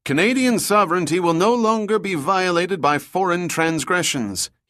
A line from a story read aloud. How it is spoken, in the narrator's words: he shrieked to the cameras